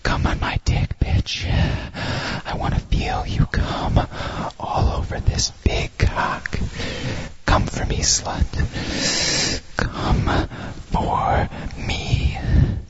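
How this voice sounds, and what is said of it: Whispered line. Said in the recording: “whisper into your ear”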